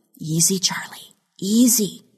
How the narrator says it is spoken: she whispered

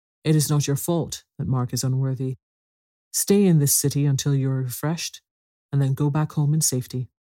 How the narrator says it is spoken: Arthur said to him kindly

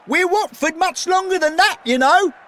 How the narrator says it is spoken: Sid called out

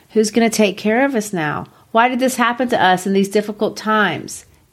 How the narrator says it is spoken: My cousins cried, asking

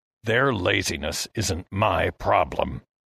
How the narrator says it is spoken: Heston growled

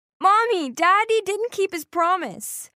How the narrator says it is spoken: So I shouted at my mom

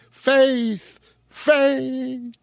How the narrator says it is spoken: shouted Goodman Brown in a voice of agony and desperation

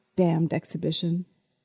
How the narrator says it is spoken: John muttered

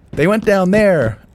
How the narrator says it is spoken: I shouted

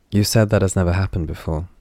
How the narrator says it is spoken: he said

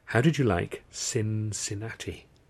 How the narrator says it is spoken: breathed

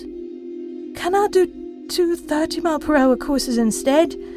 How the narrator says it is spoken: he begged

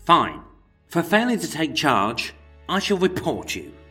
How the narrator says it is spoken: Bristling with rage at the constable's impertinence, George spat

